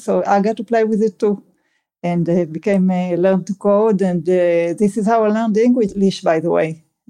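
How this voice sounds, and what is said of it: Strong non-native English accent. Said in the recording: “That's why my accent is so terrible”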